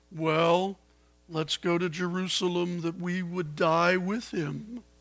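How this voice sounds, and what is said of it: Gloomy Eeyore cartoon character voice. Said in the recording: “in my best Eeyore voice ... That's Eeyore”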